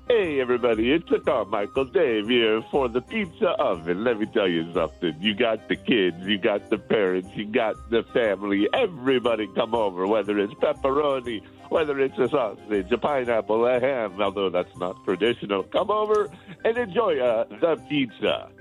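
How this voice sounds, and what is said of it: Put-on Italian accent. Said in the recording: “You're the king of accents ... your famous Carmichael Dave Italian accent”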